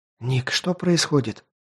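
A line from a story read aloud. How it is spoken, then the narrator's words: Whispered. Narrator (Russian): прошептала Ди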